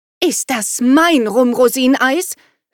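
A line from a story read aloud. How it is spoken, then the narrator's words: Sharp question. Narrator (German): fragte sie scharf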